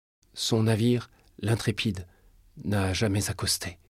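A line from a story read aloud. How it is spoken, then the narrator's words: Whispered. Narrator (French): murmura-t-elle enfin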